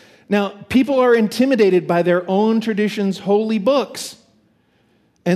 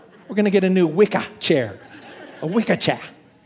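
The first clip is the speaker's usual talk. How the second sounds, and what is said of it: Put-on Boston accent. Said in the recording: “this is certainly true with the Boston accent”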